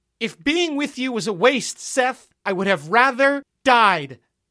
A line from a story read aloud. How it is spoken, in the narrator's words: Gloria repeated, showing the strain to get her voice to rise above the wind